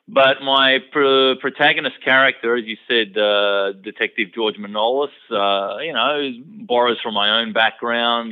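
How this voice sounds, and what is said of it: Typical Australian accent. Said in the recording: “you can hear it in my voice that I have a you know typical Australian accent.”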